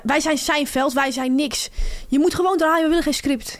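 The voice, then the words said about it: Weak imitation of Amsterdam accent. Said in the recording (Dutch): “ik kan zijn accent niet goed nadoen ... Het Amsterdamse accent.”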